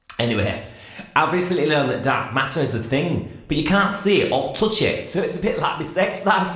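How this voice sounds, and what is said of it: Manchester English accent. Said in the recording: “I'm from Manchester ... I know it's hard to take my accent seriously”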